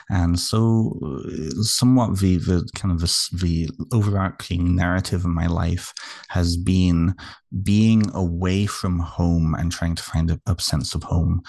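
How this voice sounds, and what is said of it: British accent. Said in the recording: “you can probably tell by my accent, I'm not Canadian. ... I'm originally from the United Kingdom.”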